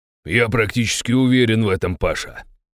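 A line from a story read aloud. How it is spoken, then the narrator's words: Spoken with malicious smile. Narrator (Russian): злобно улыбнулся Завойский-старший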